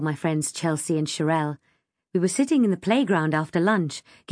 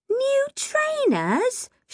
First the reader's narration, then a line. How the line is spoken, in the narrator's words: Sherelle shrieked